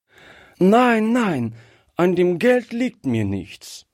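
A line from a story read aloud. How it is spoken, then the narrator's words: Calling out. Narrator (German): rief Gretchen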